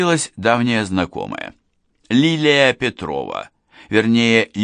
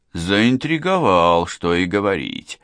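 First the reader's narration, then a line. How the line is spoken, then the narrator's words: Drawling with a smirk. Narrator (Russian): усмехаясь, протянул Гуров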